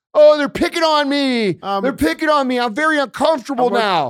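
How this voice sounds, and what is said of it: Mocking whiny imitated voice. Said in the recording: “That was an impression of a liberal scream.”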